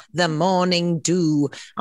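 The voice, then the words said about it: Put-on British accent. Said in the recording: “I feel compelled to say that in a British accent”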